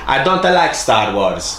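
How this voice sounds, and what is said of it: Put-on Italian accent. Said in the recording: “she's Italian, so I'm going to do the accent here”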